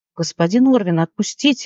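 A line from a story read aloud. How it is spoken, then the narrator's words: Exclamation. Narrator (Russian): воскликнула она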